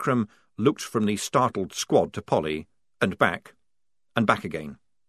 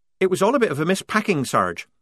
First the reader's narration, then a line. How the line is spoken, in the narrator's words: said Polly quickly, anxious to keep away from anything connected with missing ringlets